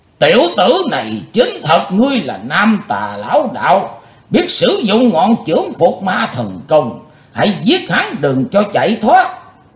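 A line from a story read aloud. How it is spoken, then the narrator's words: Sudden roar, old man. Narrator (Vietnamese): Lão đạo nhân bỗng gầm vang lên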